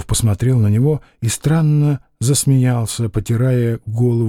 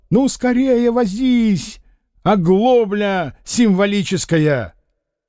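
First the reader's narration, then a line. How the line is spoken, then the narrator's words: Impatient angry shout. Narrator (Russian): он нетерпеливо и со злобой закричал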